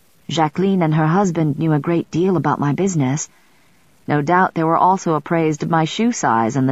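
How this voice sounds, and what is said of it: Usual voice. Nothing is said of it.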